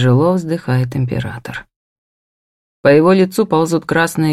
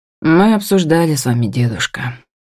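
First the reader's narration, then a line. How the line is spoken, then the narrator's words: Sad. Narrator (Russian): роняя печально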